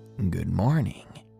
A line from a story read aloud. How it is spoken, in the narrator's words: muttered a chipper